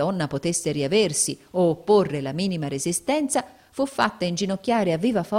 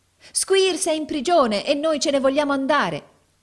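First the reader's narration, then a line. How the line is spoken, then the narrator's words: Chorus of shrill voices. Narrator (Italian): esclamò un coro di voci squillanti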